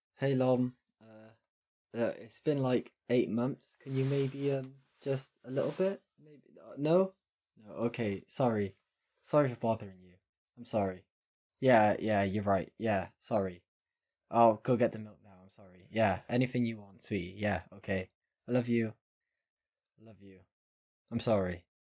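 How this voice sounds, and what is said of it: Impression of Davey. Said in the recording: “your best impression of Davey”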